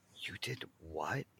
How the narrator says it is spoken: He whispered

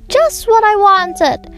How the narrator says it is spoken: cried Tom

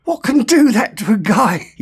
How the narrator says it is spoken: breathed

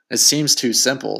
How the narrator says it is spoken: said Josh

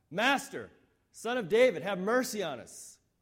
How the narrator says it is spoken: they shout even louder

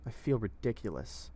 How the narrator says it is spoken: she said bitterly

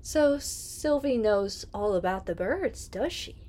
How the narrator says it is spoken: exclaimed

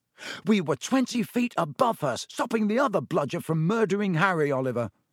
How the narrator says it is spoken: said George angrily

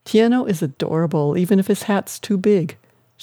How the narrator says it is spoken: she laughed

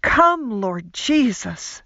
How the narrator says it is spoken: Everything within me cried out

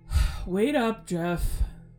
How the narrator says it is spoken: sighed and called out

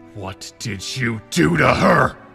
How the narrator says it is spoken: Link growled, finding his voice at last

